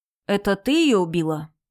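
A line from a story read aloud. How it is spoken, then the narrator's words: Flat casual question. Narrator (Russian): спросил он ровным тоном, словно интересовался, как назывался цвет лака на ее ногтях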